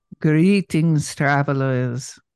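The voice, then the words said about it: Spooky voice. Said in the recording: “that was my spooky voice. That was my spooky voice. ... Very spooky.”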